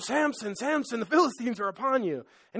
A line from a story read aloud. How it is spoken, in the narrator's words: Delilah screaming